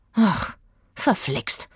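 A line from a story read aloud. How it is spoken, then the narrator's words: Murmuring. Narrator (German): murmelte Aggie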